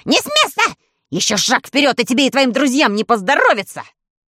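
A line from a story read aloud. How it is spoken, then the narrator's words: Vicious shriek. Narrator (Russian): Он злобно провизжал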